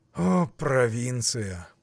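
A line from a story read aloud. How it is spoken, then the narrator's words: Grumbling. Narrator (Russian): проворчал Петр Иванович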